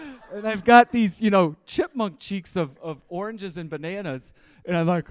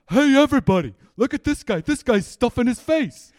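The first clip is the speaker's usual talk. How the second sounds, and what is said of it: Thick New York accent, shouting. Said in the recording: “in a thick New York accent, screams out”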